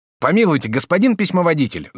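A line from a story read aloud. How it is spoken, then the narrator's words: Shout. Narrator (Russian): закричал Жак Обри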